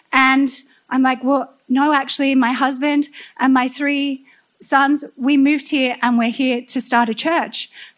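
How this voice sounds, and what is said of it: Australian accent. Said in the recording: “I noticed your Australian accent.”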